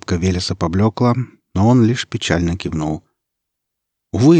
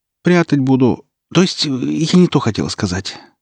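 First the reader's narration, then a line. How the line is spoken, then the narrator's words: Flustered witch. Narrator (Russian): стушевалась ведьма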